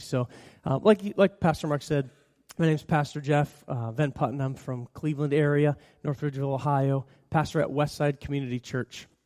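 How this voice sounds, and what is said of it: Slightly scratchy voice. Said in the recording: “I'm an allergy sufferer ... my voice is just a little bit scratchy.”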